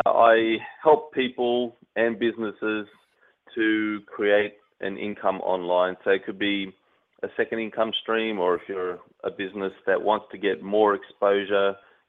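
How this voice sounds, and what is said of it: Australian accent. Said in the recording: “I'm Australian-based. Obviously, you can tell by the accent.”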